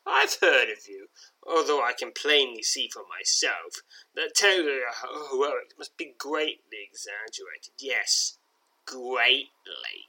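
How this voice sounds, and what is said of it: Character voice with obvious accent. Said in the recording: “he says with an obvious accent”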